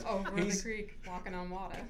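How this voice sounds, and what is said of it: Put-on movie character accent. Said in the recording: “she even did it in the accent.”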